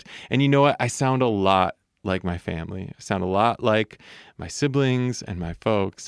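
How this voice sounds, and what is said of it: Midwestern American accent. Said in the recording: “I sound pretty Midwestern ... I do my best not to lean into that accent too hard ... I sound like I'm from Michigan”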